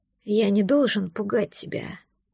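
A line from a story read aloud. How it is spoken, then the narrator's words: Muttering. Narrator (Russian): пробормотал он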